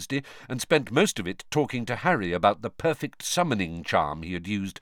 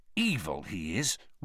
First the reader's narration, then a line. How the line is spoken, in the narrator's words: Ron said bitterly